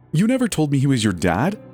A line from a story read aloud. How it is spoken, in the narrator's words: I blurted angrily